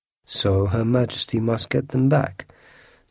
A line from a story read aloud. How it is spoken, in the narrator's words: said Aramis in his quiet voice